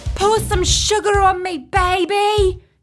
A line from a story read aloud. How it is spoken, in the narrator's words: she cried